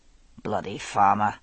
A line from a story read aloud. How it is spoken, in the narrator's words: Murtaugh grumbled